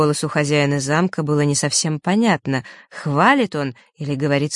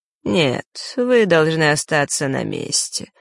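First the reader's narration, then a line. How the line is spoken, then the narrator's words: Calm. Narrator (Russian): спокойно ответил тот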